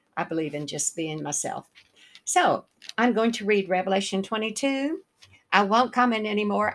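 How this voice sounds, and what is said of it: Southern American accent. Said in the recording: “I'm just pretty content with my Southern accent ... So I don't try to change my accent.”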